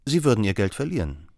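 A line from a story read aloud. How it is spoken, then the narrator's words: Calm statement. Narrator (German): stellte Holmes ruhig fest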